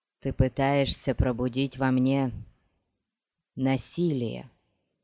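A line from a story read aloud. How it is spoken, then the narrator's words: Lifeless voice. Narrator (Russian): безжизненным голосом сказал Хейт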